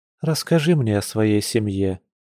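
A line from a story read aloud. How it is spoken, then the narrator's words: Soft request. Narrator (Russian): мягко попросила она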